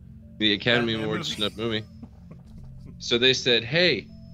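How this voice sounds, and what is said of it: Usual voice. Nothing is said of it.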